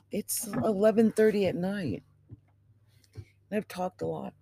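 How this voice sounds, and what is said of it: Dry, strained voice. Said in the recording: “My voice is so dry right now ... my voice is really dry for some reason”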